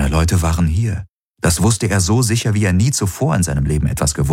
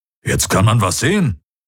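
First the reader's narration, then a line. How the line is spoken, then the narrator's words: Grumbling. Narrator (German): brummte Hubert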